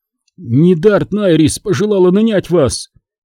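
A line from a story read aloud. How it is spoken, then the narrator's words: Hoarse, choking voice. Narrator (Russian): объяснил хриплым от удушья голосом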